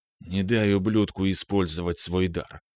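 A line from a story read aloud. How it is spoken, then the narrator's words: Quiet whisper. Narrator (Russian): тихо прошептал я ей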